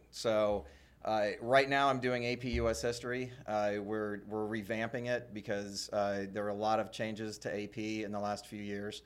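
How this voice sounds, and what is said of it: Worn-out, strained voice. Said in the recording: “my voice is about shot”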